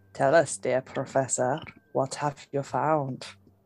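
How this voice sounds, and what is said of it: Odd put-on accent. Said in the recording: “What the fuck is this accent?”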